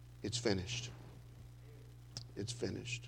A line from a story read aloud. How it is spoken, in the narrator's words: he cries out